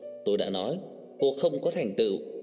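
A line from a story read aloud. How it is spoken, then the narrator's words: Furious. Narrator (Vietnamese): Cô tức giận xanh mặt, tức giận nói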